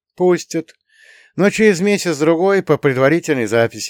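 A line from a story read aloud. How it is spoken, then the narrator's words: Sighing. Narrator (Russian): вздохнул я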